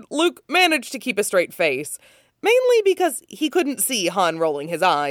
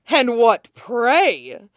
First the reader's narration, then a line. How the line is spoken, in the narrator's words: Brayden growled